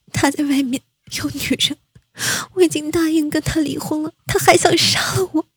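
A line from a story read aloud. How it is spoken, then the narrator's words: Tearful complaint. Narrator (Chinese): 沈渊趴在母亲怀里哭诉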